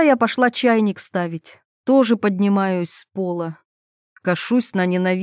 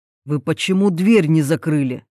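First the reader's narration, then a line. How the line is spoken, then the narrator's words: Menacing voice. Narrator (Russian): Раздается грозно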